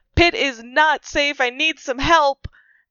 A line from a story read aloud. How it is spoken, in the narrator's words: I'm gonna just yell